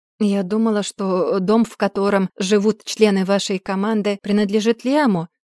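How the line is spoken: Plain. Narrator (Russian): спросила я

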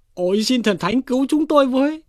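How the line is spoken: Panicked soldiers crying out. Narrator (Vietnamese): mấy tên thổ binh chạy vội chạy vàng, ngã siêu ngã vẹo, miệng kêu lên

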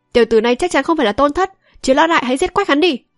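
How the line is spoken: Loud shout from crowd. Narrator (Vietnamese): nhốn nháo lên, có người hét to

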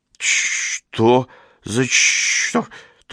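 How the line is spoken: Forced out, strained. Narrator (Russian): только и выдавил он

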